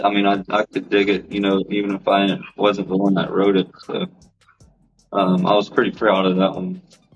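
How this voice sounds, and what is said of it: Country-sounding accent. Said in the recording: “they always come out country sounding. I don't know if it's because of my accent”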